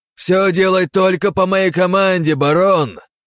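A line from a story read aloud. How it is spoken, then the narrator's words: Shouted. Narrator (Russian): крикнул Рокотов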